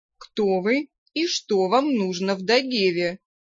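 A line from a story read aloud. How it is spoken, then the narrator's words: Imposing guttural vampire. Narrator (Russian): внушительно гортанно и в меру грозно произнес вампир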